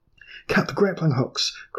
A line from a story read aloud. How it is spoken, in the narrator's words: cried Saxifdan